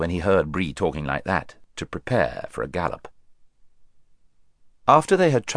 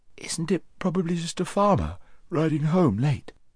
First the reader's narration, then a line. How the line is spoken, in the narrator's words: said Shasta with a yawn